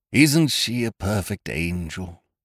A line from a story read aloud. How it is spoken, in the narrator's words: He breathed softly